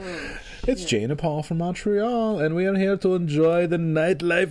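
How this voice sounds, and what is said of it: Put-on Quebecois French accent. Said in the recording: “Perfect accent. ... That's my Quebecois accent.”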